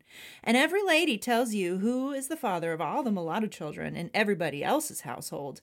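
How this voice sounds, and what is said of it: Impression of Mary Boykin Chesnut. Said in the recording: “You like my Mary Boykin Chestnut. ... Very good impression.”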